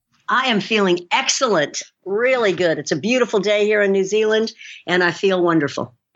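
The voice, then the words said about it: American accent, not New Zealand. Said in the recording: “you don't have the typical New Zealand accent, though... I was born and raised in San Francisco, and moved here in 1992 and was already an adult, so I didn't lose my accent”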